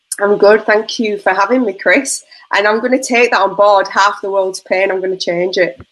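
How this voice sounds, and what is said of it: Northern English accent. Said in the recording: “Where's your accent originate from? ... I'm not Australian, obviously. I'm from the north of England”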